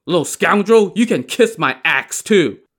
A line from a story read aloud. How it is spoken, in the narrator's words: Li Kui shouted